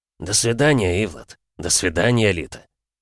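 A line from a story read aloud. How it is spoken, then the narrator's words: Snorting. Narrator (Russian): хмыкнул Вьюга, не выдержав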